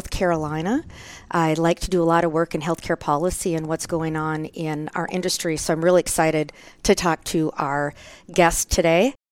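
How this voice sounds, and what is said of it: Fast Minnesotan accent, long O. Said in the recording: “I think most people can tell my voice. I talk a little bit fast. ... I say Minnesota with that big long O. ... My Scandinavian accent.”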